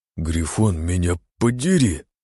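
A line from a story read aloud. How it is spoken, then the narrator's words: Strained, forced out. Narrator (Russian): выдавил из себя дядя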